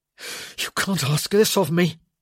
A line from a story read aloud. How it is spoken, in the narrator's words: he gasped